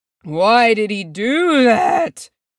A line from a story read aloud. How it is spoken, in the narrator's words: Oin moaned